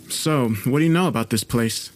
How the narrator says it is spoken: I asked

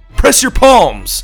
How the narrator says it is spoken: Lydia's dad shouted

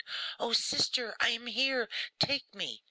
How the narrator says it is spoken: the child stretched out his arms and cried

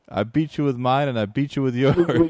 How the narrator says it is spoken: laughing at him and saying

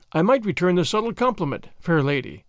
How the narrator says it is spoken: he said

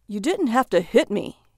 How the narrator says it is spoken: he exclaimed

